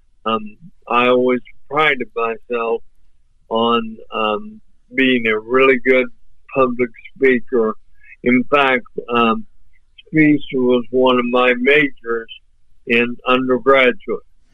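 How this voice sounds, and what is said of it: Voice sounds off, impaired. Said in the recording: “you can tell that my voice is off”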